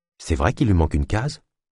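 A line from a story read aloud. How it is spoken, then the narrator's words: Quiet question. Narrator (French): demanda Naya à voix basse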